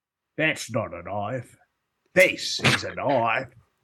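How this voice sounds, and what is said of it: Australian-sounding imitation of another voice. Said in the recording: “I meant to do Sean Connery and the Untouchables. ... I don't know why he made him Australian.”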